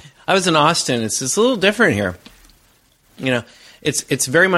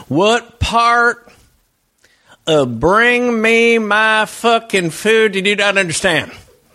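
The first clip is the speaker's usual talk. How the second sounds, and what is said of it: Imitated angry local Texas accent. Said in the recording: “the accent remains. Sometimes people talk a little bit differently here ... It sounded something like this.”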